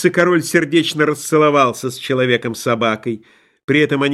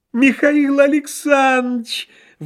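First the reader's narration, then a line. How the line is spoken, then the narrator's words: Exclamation of realization. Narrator (Russian): воскликнул прозревший бухгалтер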